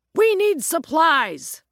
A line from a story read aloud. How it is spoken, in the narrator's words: took a deep breath and shouted